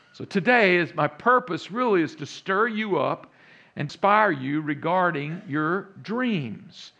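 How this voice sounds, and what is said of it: Texas accent. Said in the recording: “many of you hear that accent now in the background a little bit. Yeah, that's a Texas accent.”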